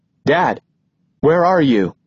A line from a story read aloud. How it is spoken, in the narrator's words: I try to keep my voice normal and steady